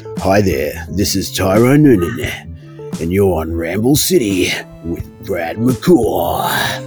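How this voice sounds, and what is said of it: Classic radio announcer voice. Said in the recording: “classic radio voice”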